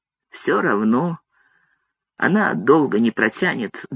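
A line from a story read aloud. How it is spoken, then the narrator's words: Grumble. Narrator (Russian): буркнул Дик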